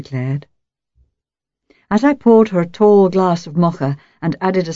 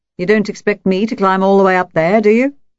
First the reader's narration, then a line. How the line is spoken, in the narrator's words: laughed